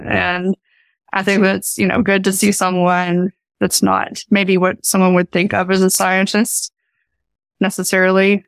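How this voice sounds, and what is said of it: Mild Appalachian accent. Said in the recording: “my accent is not as thick as it used to be. I still have my accent and I am very proud of having my accent ... someone from, from Appalachia”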